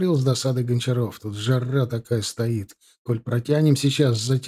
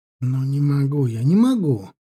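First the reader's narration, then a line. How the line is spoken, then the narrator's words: Exclaiming. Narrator (Russian): воскликнул он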